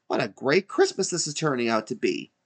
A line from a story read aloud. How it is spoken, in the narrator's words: exclaimed Elmo